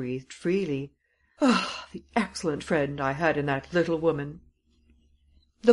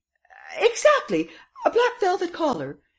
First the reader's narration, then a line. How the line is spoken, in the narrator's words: exclaimed Madame Renaud triumphantly